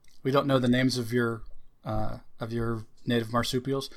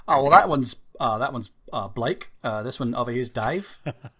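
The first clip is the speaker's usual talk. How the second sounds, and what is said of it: Fake Australian accent. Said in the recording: “That fake accent is definitely offensive.”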